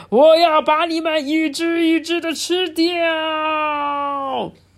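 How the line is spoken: Terrible roar. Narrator (Chinese): 大章鱼发出可怕的吼叫声

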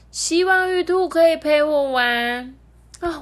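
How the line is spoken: Young boy. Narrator (Chinese): 叫做李华的小男孩，对着月亮说

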